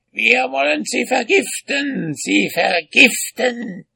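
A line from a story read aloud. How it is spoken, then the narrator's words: Shrieking witches. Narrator (German): kreischten die Hexen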